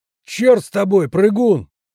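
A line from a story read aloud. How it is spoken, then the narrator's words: Shout from behind barricade. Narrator (Russian): крикнул Седой из-за баррикады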